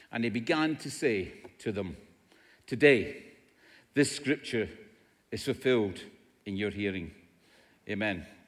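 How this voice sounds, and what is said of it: Scottish accent. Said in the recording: “I'm not English... This is an accent. It's not an impediment... This is an accent... In Scotland, where I come from, everybody speaks like this.”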